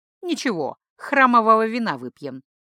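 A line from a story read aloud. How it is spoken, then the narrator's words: Wry snort. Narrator (Russian): хмыкнул Элайтер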